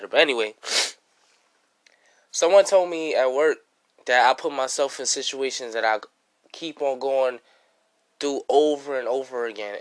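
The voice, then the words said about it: Sick, coughing voice. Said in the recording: “sorry for my voice. I'm still coughing. I'm still, like, kind of sick”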